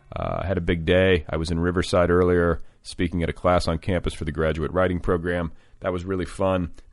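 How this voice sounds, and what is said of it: Tired, strained voice. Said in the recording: “It's late. Can you hear it in my voice? Can you hear the vocal strain?”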